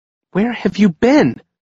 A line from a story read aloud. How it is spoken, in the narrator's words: exclaimed Nina